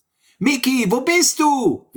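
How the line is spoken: Calling out. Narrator (German): rief Sammy

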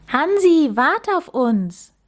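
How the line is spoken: Calling after someone. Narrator (German): rief Max ihm hinterher

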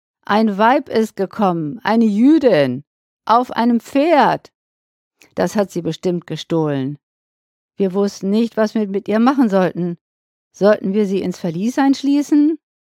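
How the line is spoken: Calling out. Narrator (German): rief er ihm entgegen

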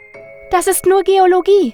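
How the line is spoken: Called out. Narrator (German): rief sie noch

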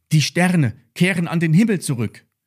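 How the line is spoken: Calling out. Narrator (German): rief Lilly

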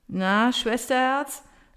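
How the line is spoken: Mumbled while yawning. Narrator (German): nuschelt er gähnend

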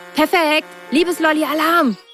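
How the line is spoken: Calling out. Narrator (German): rief Mona

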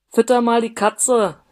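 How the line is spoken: Call through closed door. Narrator (German): rief Karl-Heinz durch die geschlossene Tür, fordernden Ton

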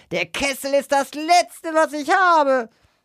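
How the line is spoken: Shrieking. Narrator (German): kreischte sie

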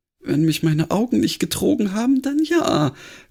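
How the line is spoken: Sighing reply. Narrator (German): gab Granny seufzend zurück

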